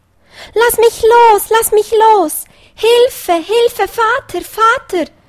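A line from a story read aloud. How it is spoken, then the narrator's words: Little hare crying out. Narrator (German): rief der kleine Hase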